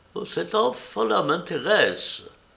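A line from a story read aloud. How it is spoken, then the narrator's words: Exclaiming. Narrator (French): il s'écriait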